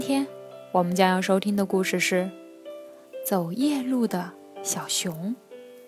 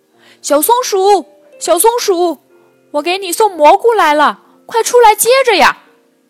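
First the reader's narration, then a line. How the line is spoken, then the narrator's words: Calling out repeatedly. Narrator (Chinese): 小熊喊了很久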